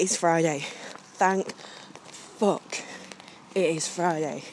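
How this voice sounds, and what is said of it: Usual voice. Nothing is said of it.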